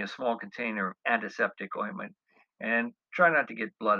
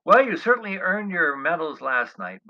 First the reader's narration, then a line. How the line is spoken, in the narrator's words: Bubba said, laughing